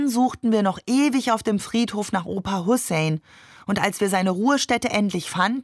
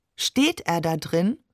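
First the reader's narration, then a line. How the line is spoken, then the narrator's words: Plain. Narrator (German): fragte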